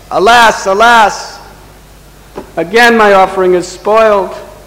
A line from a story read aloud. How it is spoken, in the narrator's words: the Brahmin, exasperated, he just cried out